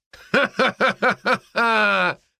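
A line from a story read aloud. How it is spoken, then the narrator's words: Laughing. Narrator (Russian): рассмеялась Настя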